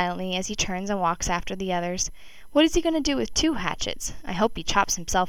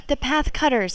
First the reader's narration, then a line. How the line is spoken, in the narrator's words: I shout